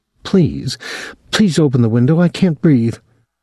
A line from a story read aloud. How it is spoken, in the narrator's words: said, gasping